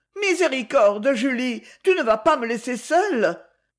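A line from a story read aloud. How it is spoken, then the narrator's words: Terrified cry. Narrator (French): s'écria Madame Fèvre d'un air épouvanté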